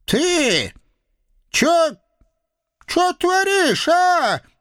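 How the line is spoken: Stunned old woman squeaking. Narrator (Russian): Не своим голосом пропищала в конец обалдевшая старушка

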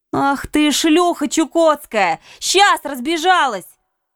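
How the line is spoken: Shouted. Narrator (Russian): закричала я

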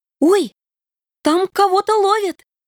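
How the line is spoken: Interested squeal. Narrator (Russian): Заинтересованно взвизгнула Вероника

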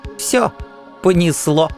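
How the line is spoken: Giggling. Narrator (Russian): хихикнуло их величество

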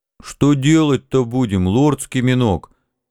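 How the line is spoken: Mournful moan. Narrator (Russian): скорбно простонал Жан

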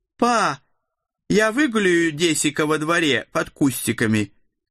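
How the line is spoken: Loud, from another room. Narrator (Russian): громко раздалось из прихожей

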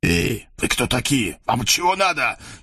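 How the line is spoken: Frightened hiss. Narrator (Russian): испуганно зашипел на него главарь

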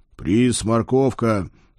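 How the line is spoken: Solemn promise. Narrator (Russian): торжественно пообещал я

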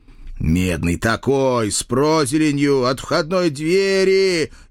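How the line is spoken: Chorus of howling ghouls. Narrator (Russian): Едва ли не хором взвыло все упырье братство

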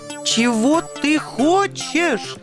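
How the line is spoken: Shrill falsetto shriek. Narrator (Russian): Сорвавшись на тонкий фальцет, завизжал белый ангел

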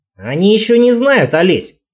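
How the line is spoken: Snide remark. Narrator (Russian): бросил кто-то ехидно

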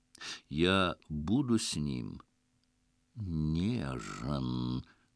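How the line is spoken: Languid lion purr. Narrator (Russian): томно промурлыкал лев

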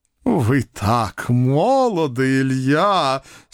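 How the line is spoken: Drawled with feeling. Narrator (Russian): с чувством протянул жандарм

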